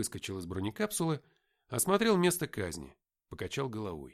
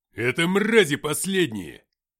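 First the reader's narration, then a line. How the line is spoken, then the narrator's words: Barking. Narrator (Russian): рявкнул Филиппыч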